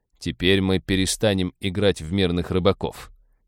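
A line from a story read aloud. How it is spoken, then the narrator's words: Malicious smirking. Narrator (Russian): злобно ухмыльнулся Роджер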